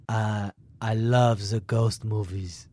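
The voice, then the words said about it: Put-on French accent. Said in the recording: “I guess I'll do this in a French accent.”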